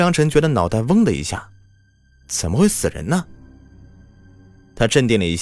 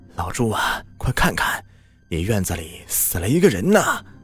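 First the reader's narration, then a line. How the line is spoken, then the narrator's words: Breathless, panting urgent speech. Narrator (Chinese): 村长喘着粗气说道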